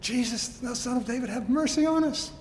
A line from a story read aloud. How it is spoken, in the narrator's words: they cry out all the more, screaming